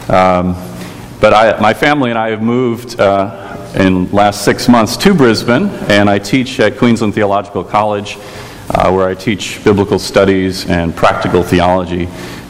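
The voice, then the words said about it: American Chicago accent. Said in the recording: “you may notice from my accent that I'm not from these parts. I'm from Chicago.”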